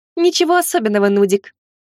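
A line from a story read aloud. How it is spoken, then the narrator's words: Snide smiling tone. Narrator (Russian): Ехидно улыбнулась Лана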